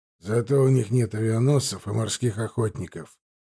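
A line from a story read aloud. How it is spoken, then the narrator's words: Grumbling commander. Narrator (Russian): проворчал командующий флотом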